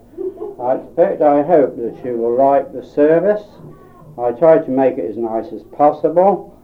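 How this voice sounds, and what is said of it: Berkshire English accent. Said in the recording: “as you can tell by his Berkshire accent.”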